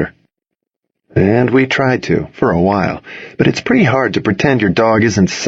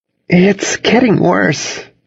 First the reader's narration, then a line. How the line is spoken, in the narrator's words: Cassidy said, trying not to laugh